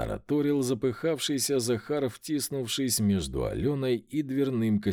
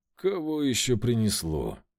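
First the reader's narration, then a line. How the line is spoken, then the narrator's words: Tired question. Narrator (Russian): Устало спросил я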